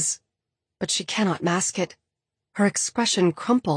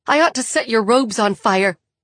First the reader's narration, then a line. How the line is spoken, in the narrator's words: she shouts